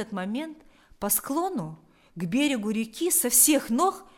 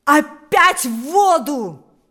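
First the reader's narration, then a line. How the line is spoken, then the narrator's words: Shouting. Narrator (Russian): закричал сам Паисий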